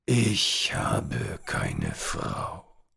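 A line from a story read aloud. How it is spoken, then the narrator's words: Old man growling. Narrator (German): knurrte der alte Mann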